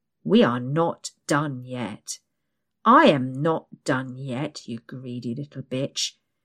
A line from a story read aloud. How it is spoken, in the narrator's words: he snarls